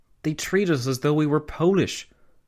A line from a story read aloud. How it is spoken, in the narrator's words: Karl Renner, the Austrian Chancellor, had exclaimed